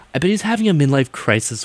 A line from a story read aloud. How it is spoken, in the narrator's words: Willow shouted